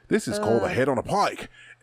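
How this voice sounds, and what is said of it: Australian outback accent impression. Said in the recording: “Such a good accent.”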